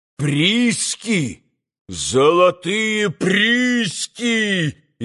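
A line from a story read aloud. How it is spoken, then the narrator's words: Loud shout, then laughter. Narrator (Russian): изо всей силы закричал Митя и закатился смехом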